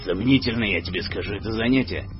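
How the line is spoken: Gruff mutter. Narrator (Russian): буркнул Глаз

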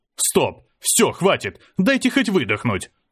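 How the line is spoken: Yelling. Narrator (Russian): заорал я

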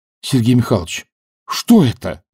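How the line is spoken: Exclaimed. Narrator (Russian): воскликнул Данилов

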